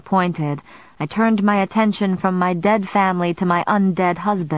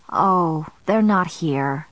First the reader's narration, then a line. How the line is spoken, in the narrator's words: grandmother said sadly